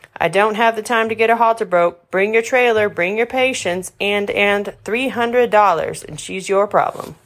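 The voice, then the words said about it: Southern Texas accent. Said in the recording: “her lovely southern accent... Her lovely Texas accent.”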